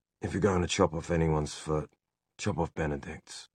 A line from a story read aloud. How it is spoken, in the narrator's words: Will muttered